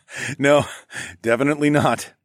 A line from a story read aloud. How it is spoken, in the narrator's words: I laughed